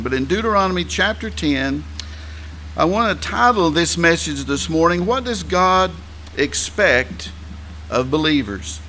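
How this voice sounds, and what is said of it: Southern American English accent. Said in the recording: “my accent... I know that some people struggle with Southern English”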